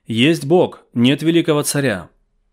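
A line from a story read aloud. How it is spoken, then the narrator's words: Crowd of young men shouting. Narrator (Russian): Многие молодые люди, шедшие сзади, кричали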